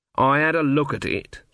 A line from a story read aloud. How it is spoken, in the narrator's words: said Granny coldly